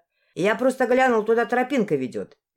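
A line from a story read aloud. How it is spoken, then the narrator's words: Cheerful. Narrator (Russian): весело ответил он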